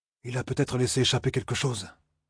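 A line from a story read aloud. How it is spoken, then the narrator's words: Murmur. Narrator (French): murmura Perrine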